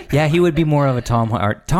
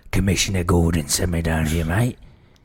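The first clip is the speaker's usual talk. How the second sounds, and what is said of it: Put-on British accent as Batman. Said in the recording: “What if Batman was British? ... Tom Hardy should be a British Batman.”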